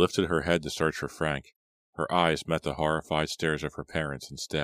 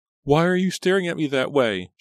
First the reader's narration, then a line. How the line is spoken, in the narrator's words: she screamed